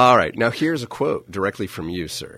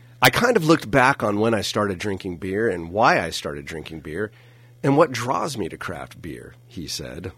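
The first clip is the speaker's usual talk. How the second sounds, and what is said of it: Announcer voice. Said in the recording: “is that an accent? Are you impersonating me there? ... I'm turning on the announcer voice.”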